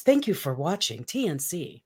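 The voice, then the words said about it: Radio announcer voice. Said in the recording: “Do you like my radio voice? ... You've got a fantastic radio voice.”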